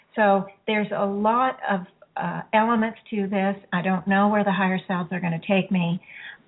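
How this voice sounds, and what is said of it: Slightly hoarse voice. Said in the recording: “I do feel like I'm getting hoarse ... I hope I'm not um, going to lose my voice”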